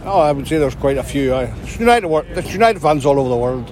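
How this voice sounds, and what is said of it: Unusual Scottish accent. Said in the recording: “I love your accent. ... It's fantastic. It's like a Scottish I've never heard before.”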